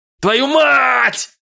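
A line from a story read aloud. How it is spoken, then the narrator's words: Shouted. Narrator (Russian): заорал я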